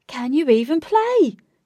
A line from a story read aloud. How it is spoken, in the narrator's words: shouted Lynx